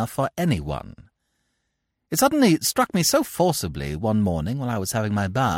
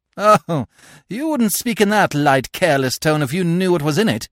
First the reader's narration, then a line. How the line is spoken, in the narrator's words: I said with a hollow, mirthless laugh